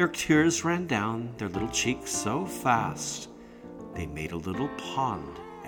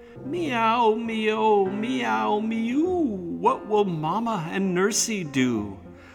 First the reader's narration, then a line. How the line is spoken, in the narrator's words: how they cried